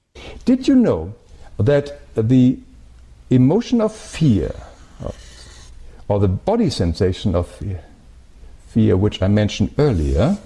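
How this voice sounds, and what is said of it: Thick German accent. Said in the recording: “He's got this kind of thick German accent”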